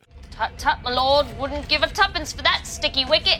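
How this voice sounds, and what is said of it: Terrible put-on cockney British accent. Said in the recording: “doing terrible British accents ... So cockney ... that cockney accent”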